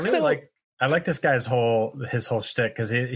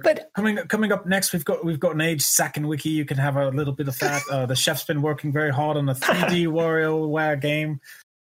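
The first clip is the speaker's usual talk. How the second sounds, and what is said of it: Fancy restaurant waiter accent. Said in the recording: “he reminded me of like a waiter at a really fancy restaurant ... Why do fancy waiters always have the same accent?”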